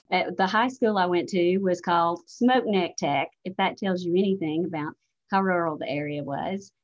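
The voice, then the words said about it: Alabama Southern accent. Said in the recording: “accent that I'm from Alabama”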